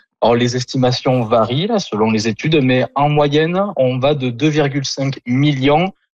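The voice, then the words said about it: Southern French accent. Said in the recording (French): “votre accent du sud de la France”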